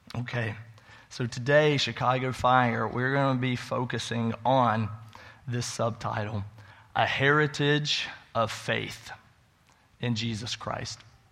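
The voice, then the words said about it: Voice slightly changed by illness. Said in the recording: “My voice is a little different, getting over being sick.”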